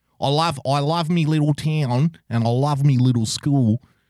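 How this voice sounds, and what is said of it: Put-on Queensland Australian accent. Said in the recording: “that's a classic Queensland accent right there.”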